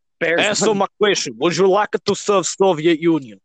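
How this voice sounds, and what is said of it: Put-on Russian accent. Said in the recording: “Stop with the Russian accent.”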